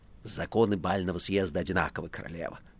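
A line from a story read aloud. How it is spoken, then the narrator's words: Whisper. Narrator (Russian): шептал Коровьев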